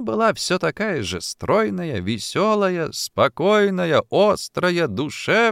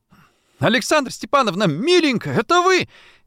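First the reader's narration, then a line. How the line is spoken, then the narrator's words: Loud shout. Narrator (Russian): закричал Антошин на всю квартиру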